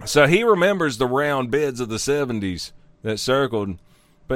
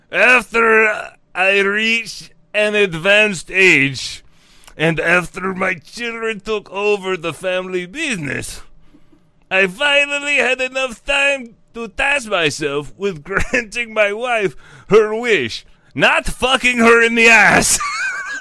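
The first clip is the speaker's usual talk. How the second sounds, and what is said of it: Put-on accent. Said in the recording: “I get to do this guy's accent.”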